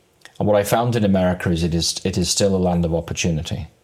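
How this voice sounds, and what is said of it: English accent. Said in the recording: “as you can tell from my accent... I'm from England”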